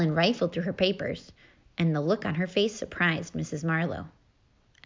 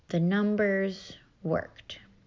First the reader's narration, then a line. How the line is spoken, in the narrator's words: very slowly, she said